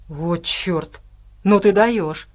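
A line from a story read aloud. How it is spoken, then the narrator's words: Breathless exclamation. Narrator (Russian): выдохнул медвежонок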